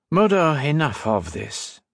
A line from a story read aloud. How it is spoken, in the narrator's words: he said calmly, this time in English